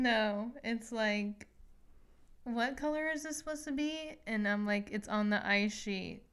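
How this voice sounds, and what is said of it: Usual voice. Nothing is said of it.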